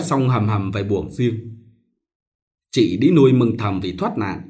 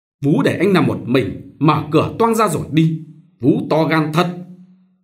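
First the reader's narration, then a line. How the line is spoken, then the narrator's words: Loud irritated snap. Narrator (Vietnamese): Ông sợ mất thể diện gắt to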